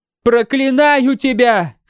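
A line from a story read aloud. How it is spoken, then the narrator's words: Shouted. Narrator (Russian): прокричала она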